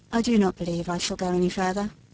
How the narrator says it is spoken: said he sullenly

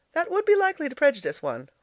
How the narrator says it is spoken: laughed Elnora

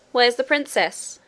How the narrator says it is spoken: cried Curdie again and again

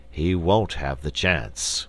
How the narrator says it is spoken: grumbled the bear king

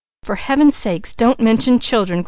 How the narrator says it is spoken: cried Mrs

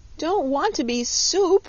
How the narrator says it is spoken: wailed Button-Bright again

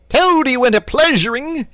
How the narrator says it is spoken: yelled

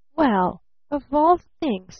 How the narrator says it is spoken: stammered Barton

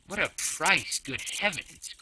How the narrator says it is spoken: cried Passepartout

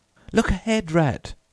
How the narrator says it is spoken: cried the mole suddenly

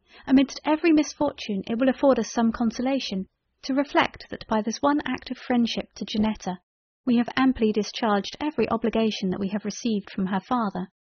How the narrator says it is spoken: exclaimed I

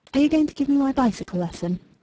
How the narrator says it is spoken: She breathed relief and asked

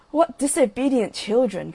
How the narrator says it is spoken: cried the old water rat

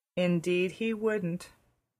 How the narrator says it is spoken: said Anne sadly

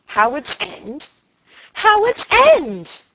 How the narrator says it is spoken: she screamed, mimicking him

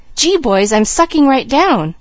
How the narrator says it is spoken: suddenly he cried

